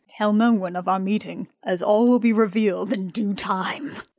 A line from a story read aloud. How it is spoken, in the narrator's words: Henry very dramatically states in a real voice that real people use